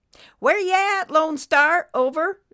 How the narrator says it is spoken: Nurse Betty called out again

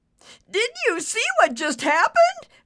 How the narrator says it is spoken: Ricky said, squealing like a pig

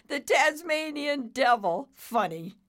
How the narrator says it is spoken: Nimbus said with a chuckle

